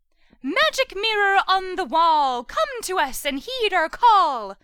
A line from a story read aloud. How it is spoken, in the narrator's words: Flora sang gaily